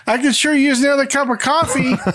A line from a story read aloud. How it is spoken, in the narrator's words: Breaks the awkwardness when she shouts